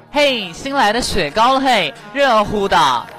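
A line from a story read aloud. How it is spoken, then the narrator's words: Woman calling out. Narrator (Chinese): 一个阿姨喊哈，她说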